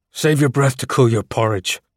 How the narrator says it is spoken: I growled

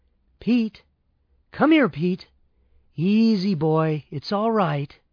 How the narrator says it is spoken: I called out to him softly

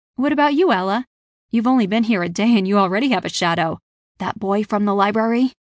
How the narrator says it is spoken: She laughed loudly

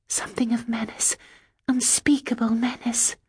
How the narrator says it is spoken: I whispered

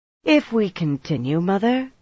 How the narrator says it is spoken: Shiriam said coolly

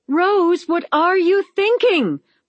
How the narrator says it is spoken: Practical Sensible screamed

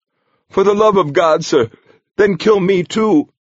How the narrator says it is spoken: Brother Francis wailed

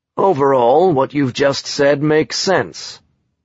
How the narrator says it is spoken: Shantarsky said calmly

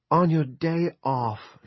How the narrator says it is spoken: she cried

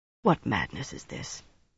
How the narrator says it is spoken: he asked softly

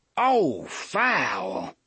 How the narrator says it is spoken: he cried

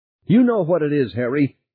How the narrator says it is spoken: Beth shouted

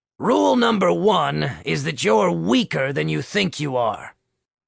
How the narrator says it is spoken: Coach George said, with a half-snarl plastered to his face

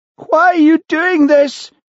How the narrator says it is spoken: wailed Sheila

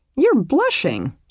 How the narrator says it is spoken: she exclaimed

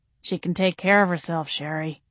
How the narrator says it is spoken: Daddy said, his tone weary

